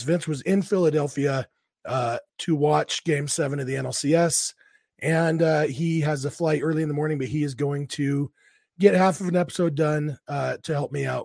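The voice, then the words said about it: Sick, congested-sounding voice. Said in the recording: “I am sick as a dog today ... why my voice sounds a little bit different. This is not a Guy Fieri impression. This is just what I sound like when I'm sick.”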